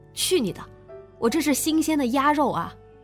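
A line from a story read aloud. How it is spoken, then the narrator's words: Retorting. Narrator (Chinese): 烤羊肉串的叫猛哥也回一句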